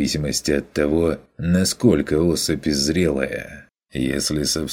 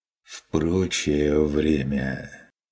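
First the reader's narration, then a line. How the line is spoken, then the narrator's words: Tired sigh, hunter. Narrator (Russian): Вздохнул охотник устало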